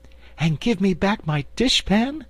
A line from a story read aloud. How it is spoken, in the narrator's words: added the Cookie Cook eagerly